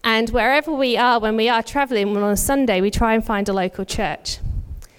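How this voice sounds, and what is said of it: British accent. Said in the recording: “If you can tell from my accent, I'm not originally from Australia. Our families are both back in the UK.”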